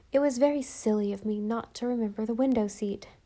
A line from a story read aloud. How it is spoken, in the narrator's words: said Anne